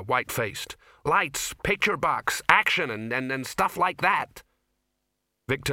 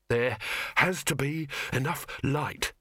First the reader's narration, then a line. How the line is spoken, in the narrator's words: he panted